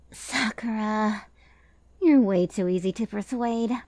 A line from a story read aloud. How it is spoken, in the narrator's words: sighed Ran